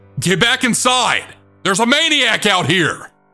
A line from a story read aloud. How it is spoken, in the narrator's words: yelling